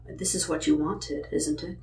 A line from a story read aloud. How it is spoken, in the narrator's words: said softly